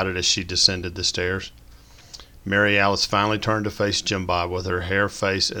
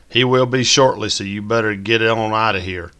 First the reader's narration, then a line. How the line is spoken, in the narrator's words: Mary Alice quit with a fake southern drawl